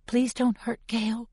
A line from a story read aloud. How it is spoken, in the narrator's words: I whisper